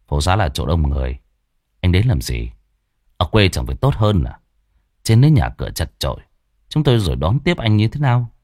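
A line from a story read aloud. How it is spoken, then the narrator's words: Cold. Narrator (Vietnamese): Thằng Quân chỉ lạnh lùng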